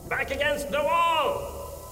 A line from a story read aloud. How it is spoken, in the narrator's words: Von Baumeister bellowed